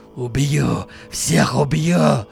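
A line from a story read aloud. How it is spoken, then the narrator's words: Croaking, hideous strange voice. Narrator (Russian): Прокаркал Бирюков незнакомым отвратительным голосом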